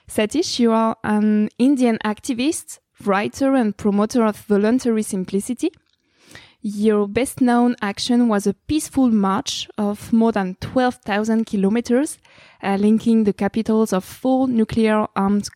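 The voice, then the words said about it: Strong French accent in English. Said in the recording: “I have a very big French accent.”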